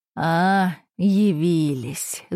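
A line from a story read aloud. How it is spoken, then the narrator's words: Drawled snidely, male. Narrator (Russian): ехидно протянул он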